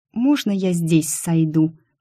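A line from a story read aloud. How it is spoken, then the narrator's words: Mumbling. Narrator (Russian): пробормотала я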